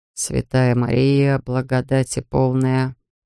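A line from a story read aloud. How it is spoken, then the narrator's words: Muttered. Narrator (Russian): пробормотал он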